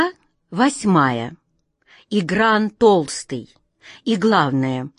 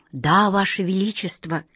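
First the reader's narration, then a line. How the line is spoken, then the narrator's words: Whisper. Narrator (Russian): прошептал слуга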